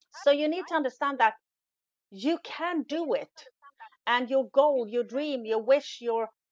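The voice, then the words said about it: Non-native English accent. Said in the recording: “English isn't my first language ... my bad accent ... in that accent”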